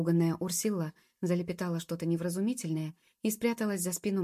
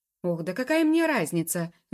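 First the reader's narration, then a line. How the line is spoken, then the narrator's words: Angry shout. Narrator (Russian): закричал мэтр Абревиль, покрываясь гневными красными пятнами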